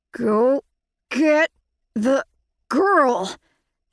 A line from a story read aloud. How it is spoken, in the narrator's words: he said through gritted teeth